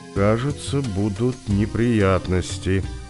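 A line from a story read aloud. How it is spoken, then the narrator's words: Quiet. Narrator (Russian): сказал негромко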